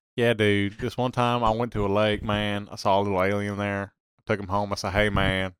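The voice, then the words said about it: Put-on accent. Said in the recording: “Every time you do that accent, you need to pop up like Theo Von”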